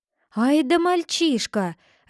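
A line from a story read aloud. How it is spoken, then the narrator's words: Joyful shout. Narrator (Russian): радостно закричал Клод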